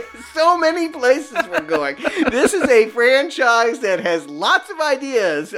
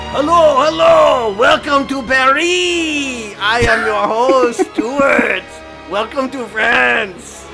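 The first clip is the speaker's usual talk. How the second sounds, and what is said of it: Exaggerated put-on French accent. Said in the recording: “I don't know if that's a French accent or merely some goon.”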